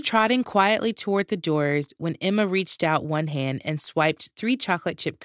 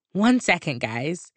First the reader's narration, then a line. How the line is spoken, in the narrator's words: she said while giggling